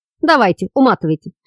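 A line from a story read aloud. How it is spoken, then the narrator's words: Snorting. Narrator (Russian): фыркнул Орлов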